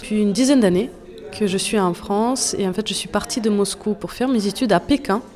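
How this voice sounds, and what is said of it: Russian-accented French. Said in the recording (French): “quel magnifique accent”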